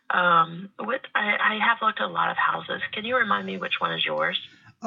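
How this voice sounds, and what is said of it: Low, quiet, sick-sounding voice. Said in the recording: “I've got pneumonia, so my voice is kind of off right now... So sorry I'm talking so low.”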